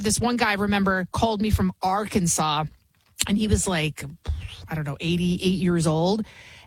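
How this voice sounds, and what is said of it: Bronx New York accent. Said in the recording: “I can be from the Bronx. Obviously, you can hear it in my accent”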